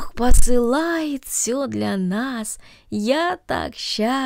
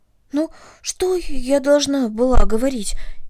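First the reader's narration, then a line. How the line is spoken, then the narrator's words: Frightened question. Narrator (Russian): испуганно спросила Корнели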